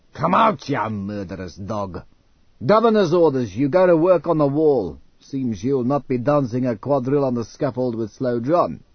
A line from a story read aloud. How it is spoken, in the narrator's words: Mansia roared